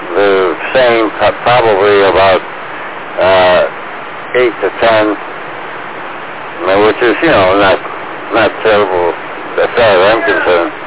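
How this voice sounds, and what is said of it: Hoarse, fading voice like a cold. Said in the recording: “I'm losing my voice. ... it sounds like you're getting a cold or something”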